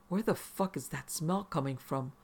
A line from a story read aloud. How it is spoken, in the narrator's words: Mario whispered